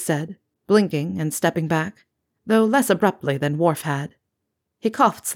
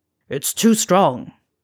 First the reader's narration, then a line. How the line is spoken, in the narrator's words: snarling